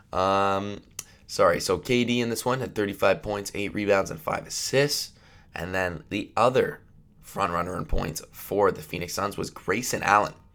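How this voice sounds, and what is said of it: Stuffy, congested voice. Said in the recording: “I'm a little bit sick ... I sound a bit stuffy”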